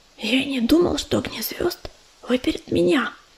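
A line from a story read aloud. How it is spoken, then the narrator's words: Whispered. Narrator (Russian): прошептал уголек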